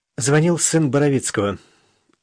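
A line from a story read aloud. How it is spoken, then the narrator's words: Sigh. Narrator (Russian): вздохнула Даша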